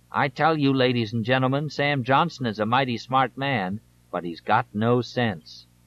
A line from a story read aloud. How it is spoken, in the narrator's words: Ridicule a potential political opponent said